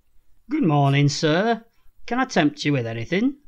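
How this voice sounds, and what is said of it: Weak attempt at northern English accent. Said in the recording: “I can't do a northern accent. ... I was a bit Thomas the Tank Engine”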